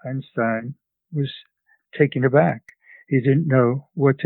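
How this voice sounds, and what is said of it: Usual voice. Nothing is said of it.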